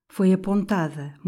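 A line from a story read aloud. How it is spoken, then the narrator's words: Murmur. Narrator (Portuguese): murmurou Juliana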